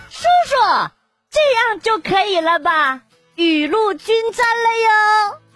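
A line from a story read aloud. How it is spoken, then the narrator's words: Child shouting loudly. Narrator (Chinese): 小男孩大声的喊道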